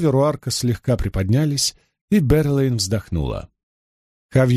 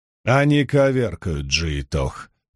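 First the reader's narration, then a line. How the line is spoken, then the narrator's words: Muttering. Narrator (Russian): пробурчал Руарк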